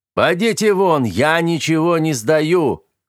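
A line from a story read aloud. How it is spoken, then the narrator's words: Irritated dragon shouting. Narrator (Russian): кричал раздраженный дракон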